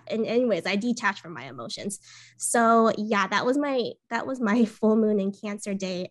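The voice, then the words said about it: Hoarse, recovering throat. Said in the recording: “I actually got sick during the weekend from COVID. So I'm still recovering. You might hear it in my voice. It's like, my throat is still like recovering from all the coughing.”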